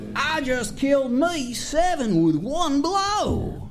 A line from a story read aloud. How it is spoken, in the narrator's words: When the townsfolk continued to ignore him, hollered